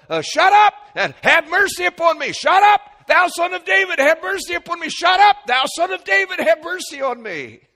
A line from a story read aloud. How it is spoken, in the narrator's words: yell